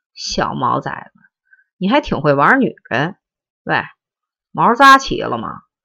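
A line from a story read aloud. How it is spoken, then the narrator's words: Weird chuckling. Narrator (Chinese): 大金刚呵呵怪笑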